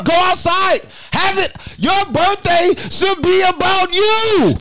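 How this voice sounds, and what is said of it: Yelling. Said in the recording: “Stop yelling.”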